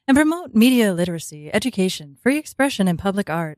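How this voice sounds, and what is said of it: Public-radio announcer voice. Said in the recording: “I'm going to do my NPR voice.”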